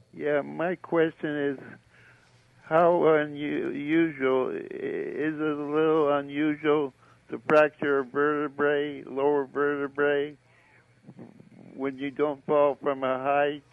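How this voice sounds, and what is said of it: Elderly man's voice. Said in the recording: “I can tell from your voice that you're not 10 years old”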